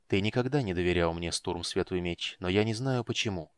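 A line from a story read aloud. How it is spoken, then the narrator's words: Said quietly. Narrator (Russian): тихо сказал волшебник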